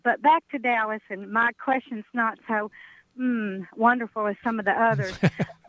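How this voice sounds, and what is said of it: Southern East Texas accent. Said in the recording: “my accent, I'm up from Ardmore, but I really grew up over by East Texas”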